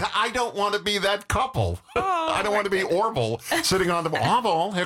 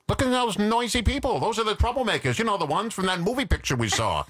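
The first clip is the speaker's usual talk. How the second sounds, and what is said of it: Mocking New England accent. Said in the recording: “he was doing it in a New England accent.”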